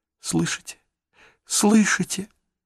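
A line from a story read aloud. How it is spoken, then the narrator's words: Whispered. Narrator (Russian): прошептал Джейсон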